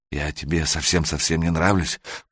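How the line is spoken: Whisper. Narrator (Russian): прошептала она

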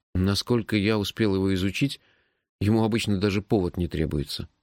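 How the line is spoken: Sighing. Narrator (Russian): вздохнул я

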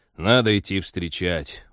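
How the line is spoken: Glum admission. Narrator (Russian): уныло признался пилот

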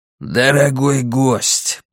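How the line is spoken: Hoarse. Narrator (Russian): прохрипел Малькольм

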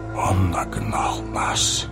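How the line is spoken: Whispered. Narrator (Russian): прошептал Гэндальф

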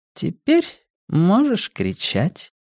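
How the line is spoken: Purring woman. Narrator (Russian): промурлыкала сулийка

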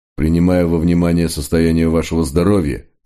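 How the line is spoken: Plain, after a pause. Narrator (Russian): сказал наконец комиссар

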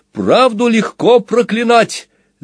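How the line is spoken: Shouting. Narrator (Russian): закричал правдивец

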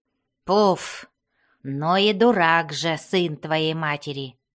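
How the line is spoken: Growling. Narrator (Russian): прорычал Бреннер

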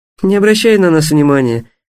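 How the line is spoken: Laughing. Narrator (Russian): рассмеялась Диана

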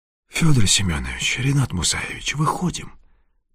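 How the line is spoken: Whisper. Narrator (Russian): прошептал он

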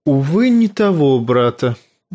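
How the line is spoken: Sigh. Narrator (Russian): вздохнул Варис

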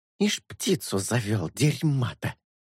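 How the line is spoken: Whispered. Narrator (Russian): прошептал Мускус

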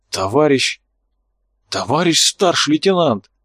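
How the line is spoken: Uncertain, frightened. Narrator (Russian): Слова прозвучали неуверенно, неизвестный сам испугался сказанного

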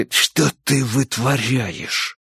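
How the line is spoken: Quiet hoarse whisper. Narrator (Russian): спросил Энди тихим, хриплым шепотом

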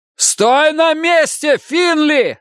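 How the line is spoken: Wolf yelling. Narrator (Russian): заорал волк

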